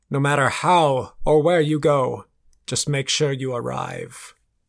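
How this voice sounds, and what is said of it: Grand, self-important voice. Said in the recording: “in my most self-importantness voice ... so broad and grand”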